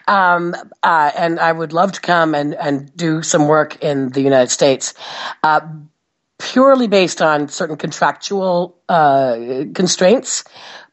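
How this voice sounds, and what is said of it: American English accent. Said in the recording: “an American accent, in case you hadn't noticed.”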